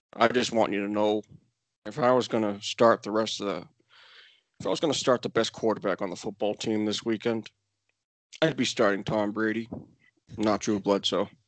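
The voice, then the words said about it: Imitates another person's voice. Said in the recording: “Excellent Belichick impersonation.”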